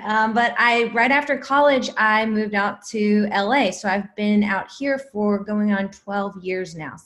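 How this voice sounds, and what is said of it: Southern American twang. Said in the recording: “I can hear your southern twang.”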